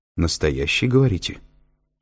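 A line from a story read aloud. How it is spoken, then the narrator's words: Stern questioning. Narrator (Russian): строго переспросила Кэтрин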